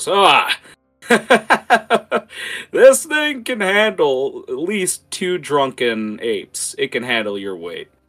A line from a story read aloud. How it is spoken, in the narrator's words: he uh, starts laughing at you and goes